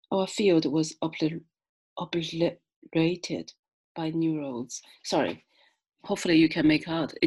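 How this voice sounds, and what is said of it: Chinese accent. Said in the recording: “my Chinese accent and Chinese tongue is very stubborn tonight”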